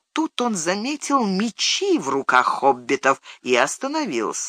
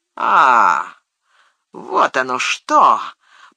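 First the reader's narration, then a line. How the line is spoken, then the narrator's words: Contemptuous mutter. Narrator (Russian): презрительно процедил Мерри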